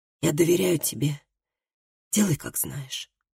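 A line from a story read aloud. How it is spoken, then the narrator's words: Tired whisper. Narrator (Russian): прошептал Тарльд усталым голосом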